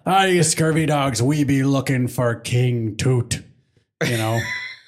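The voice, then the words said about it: Pirate character voice. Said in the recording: “I put on my pirate voice”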